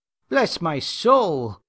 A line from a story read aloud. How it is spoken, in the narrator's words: exclaimed Mr